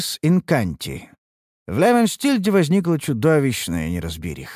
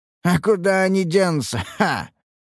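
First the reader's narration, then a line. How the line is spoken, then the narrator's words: Laughing. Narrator (Russian): рассмеялся охранник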